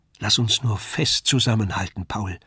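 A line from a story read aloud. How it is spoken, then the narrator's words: Softly spoken. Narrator (German): sagte leise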